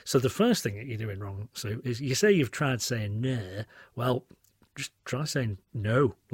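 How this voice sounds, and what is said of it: Usual voice. Nothing is said of it.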